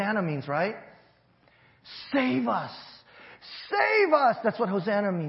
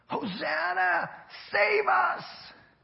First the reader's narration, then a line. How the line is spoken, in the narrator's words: yelling